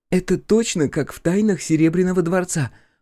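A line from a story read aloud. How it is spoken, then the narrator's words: Exclaiming, half to herself. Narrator (Russian): воскликнула она, обращаясь скорее к самой себе, чем к нам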